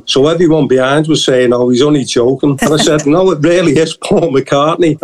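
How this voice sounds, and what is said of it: Strong regional accent. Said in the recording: “It's a great accent, isn't it?”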